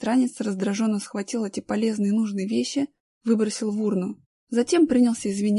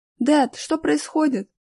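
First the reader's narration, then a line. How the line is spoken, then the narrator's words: Confused boy exclaiming. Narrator (Russian): воскликнул ничего не понимающий мальчик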